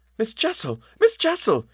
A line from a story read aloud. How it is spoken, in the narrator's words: with a gasp I echoed it